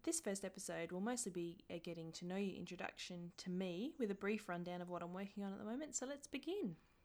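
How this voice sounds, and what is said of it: Australian accent. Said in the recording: “As you can probably tell from my accent, I'm Australian”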